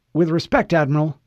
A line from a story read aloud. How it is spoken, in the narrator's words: Pulaski said